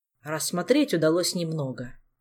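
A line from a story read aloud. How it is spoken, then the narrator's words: King's gloomy voice. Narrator (Russian): продолжал король, мрачно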